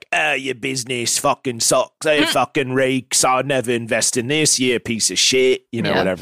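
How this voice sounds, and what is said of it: Imitates another person's accent. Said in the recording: “That's me doing your accent back to you.”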